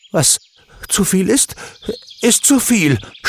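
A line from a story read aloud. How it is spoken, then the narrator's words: Stammer. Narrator (German): stammelte Alex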